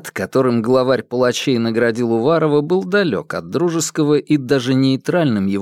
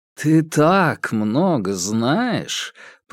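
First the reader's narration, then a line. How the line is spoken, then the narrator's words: Drawling. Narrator (Russian): протянул Терри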